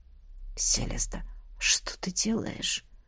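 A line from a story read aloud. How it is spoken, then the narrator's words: Hoarse mutter. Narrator (Russian): Сипло пробормотал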